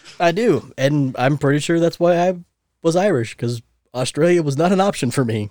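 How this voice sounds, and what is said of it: Usual voice. Nothing is said of it.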